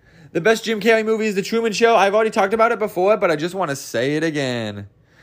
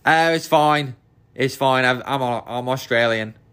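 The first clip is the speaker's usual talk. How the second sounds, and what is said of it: Attempted Australian accent. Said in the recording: “I don't know what that accent was, but I hope it was Australian”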